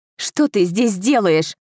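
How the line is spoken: Angry, emotional retort. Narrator (Russian): Зло бросила я ему, не в силах сдержать эмоции

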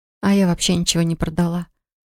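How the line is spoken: Glum, trying not to whine. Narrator (Russian): уныло произнесла Полли, хотя ей вовсе не хотелось, чтобы ее голос звучал жалобно

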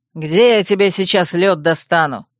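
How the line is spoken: Growled. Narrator (Russian): рыкнул Катир

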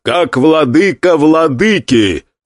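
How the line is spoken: Loud declaration. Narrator (Russian): громко произнес Гуан Юй

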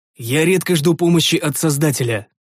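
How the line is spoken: Wry snort. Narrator (Russian): хмыкнул я

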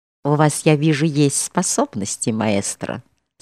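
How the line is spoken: Plain. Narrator (Russian): сказала она

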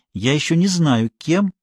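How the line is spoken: Mysterious tone. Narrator (Russian): таинственным тоном ответила Мария

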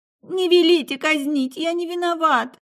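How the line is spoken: Incoherent sobbing speech. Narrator (Russian): Из-за рыданий речь казалась совсем бессвязной

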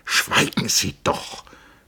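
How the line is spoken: Hissed from the side. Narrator (German): zischte Settembrini sie von der Seite an

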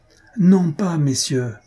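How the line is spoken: Loud exclamation. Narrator (French): s'écria le marquis à pleine voix

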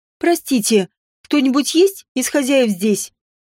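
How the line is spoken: Squeak, throat-clear, then louder. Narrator (Russian): Пискнула сначала, а потом, откашлявшись в кулак, повысила децибелы

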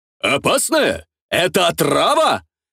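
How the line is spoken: Shouting while spitting food. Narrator (Russian): выкрикнул артист, беспардонно сплевывая недожеванное на землю

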